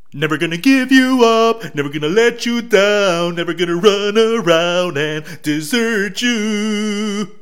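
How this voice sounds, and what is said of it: Bad sung imitation of another person's voice. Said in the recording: “bad Rick Astley impersonation ... probably the worst Rick Astley imitation you ever heard”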